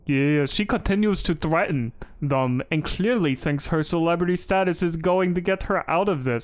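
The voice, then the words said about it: Put-on ethnic accent. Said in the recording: “That's my ethnic accent.”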